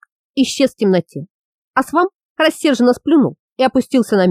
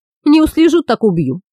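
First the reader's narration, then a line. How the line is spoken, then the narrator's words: Calm promise. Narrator (Russian): спокойно пообещал Римбун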